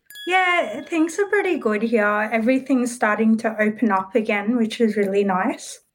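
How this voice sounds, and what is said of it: Australian accent. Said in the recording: “Your accent... it's my favorite accent in the world, the Australian accent.”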